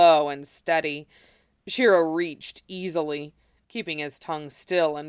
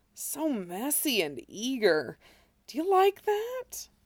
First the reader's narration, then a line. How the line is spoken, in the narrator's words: moaned